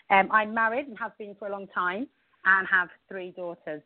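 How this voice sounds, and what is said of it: English accent. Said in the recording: “You can hear from my accent that I was actually born in England”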